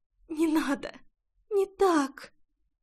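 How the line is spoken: Whispering. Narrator (Russian): шептала Рейна

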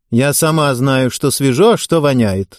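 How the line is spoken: Dry, curt. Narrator (Russian): сухо бросила Галина Александровна

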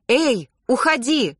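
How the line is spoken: Shouting. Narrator (Russian): прокричала я псу

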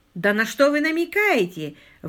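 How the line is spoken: Exclaiming. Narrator (Russian): воскликнул Каткарт

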